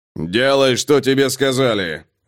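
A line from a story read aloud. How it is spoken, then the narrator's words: Bark. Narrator (Russian): рявкнул он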